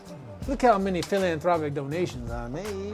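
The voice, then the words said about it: Put-on politician accent. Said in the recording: “Politician accent”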